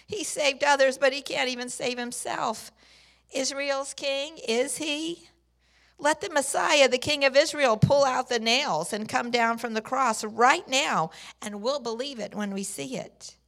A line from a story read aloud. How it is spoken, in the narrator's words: the ruling priest and the religious scholars joined in the mockery and kept laughing among themselves, saying